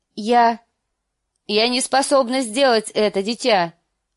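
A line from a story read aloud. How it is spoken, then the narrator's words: Cried out. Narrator (Russian): выкрикнула она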